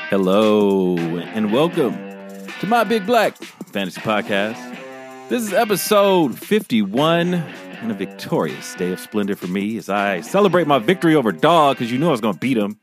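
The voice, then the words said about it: Excited, gleeful voice. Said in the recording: “you sound so excited.”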